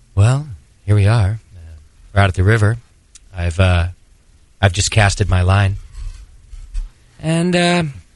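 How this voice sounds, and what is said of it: Calm documentary-style narrator voice. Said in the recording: “my impression of a fishing podcast ... You sound like a PBS show.”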